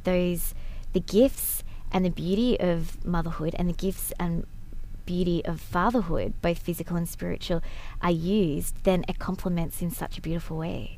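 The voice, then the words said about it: Australian accent. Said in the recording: “from Australia, in case you're trying to figure out what the accent is”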